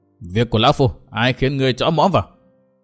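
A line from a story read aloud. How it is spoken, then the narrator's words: Angry reply. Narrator (Vietnamese): Trấn Thiên giận dữ đáp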